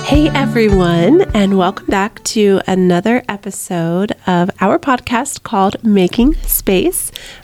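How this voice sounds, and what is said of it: Sick, husky voice. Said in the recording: “I'm really digging the way your voice sounds right now. I know, sicky. ... it's like the sexy voice.”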